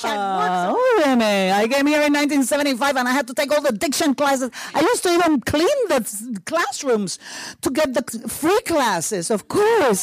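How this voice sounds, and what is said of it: Hispanic-accented English. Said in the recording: “your accent, you know. And I'm like, okay, I'm going to have the accent ... That's hard for a Hispanic person to say because we don't have those endings, those consonant endings in Spanish.”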